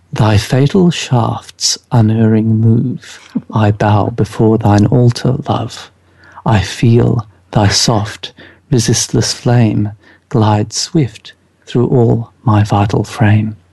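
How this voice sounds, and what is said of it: Sensual put-on reading voice. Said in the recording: “Are you going to use the voice? ... I'm going to use a voice ... I'm not going to speak in a Scottish accent because I don't think that would quite be as sensual as it could be.”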